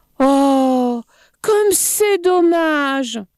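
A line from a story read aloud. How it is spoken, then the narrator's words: Exclaiming. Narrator (French): s'écria-t-il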